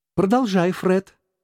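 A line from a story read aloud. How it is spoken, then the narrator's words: Excited exclamation. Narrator (Russian): воскликнула племянница Скруджа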